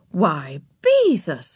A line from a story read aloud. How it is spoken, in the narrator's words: she exclaimed